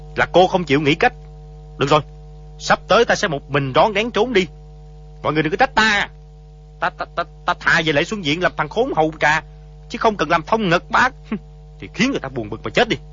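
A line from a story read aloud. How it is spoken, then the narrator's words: Angry. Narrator (Vietnamese): Di Tiểu Bảo tức giận nói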